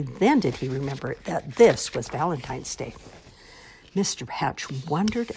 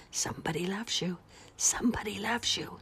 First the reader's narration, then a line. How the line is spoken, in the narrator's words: the dust cloth seemed to whisper